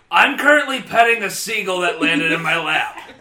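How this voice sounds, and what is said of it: Speaking in a character voice. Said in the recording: “you said it in character voice.”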